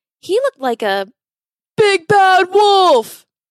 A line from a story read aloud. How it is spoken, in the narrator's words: Henry cried out in a panic